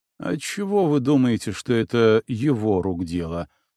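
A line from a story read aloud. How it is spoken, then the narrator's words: Plain. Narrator (Russian): спросил Ворон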